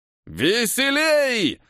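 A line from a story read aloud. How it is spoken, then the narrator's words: Encouraging shout. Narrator (Russian): закричал Абрам, подбадривая труппу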